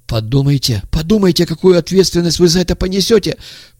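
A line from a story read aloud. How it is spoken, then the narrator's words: Timid babbling. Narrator (Russian): пролепетал тот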